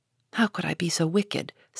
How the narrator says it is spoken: said Jo, half aloud

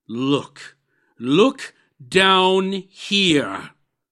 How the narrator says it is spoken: exclaimed the ghost

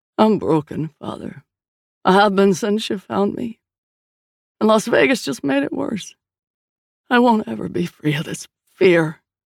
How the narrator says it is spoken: he said, his voice thick

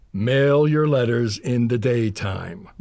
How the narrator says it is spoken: growled Papa Keller

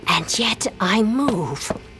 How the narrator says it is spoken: she whispers

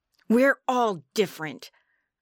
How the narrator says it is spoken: snapped

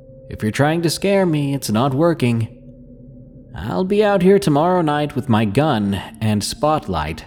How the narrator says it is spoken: called out into the dark

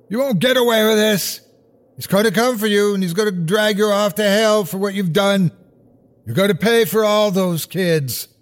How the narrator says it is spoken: I heard Rottenbacher shouting

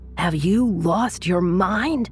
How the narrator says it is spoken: His friend screamed at him

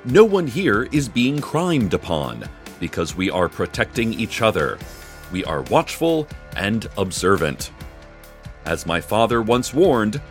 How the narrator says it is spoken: Tamika Flynn said

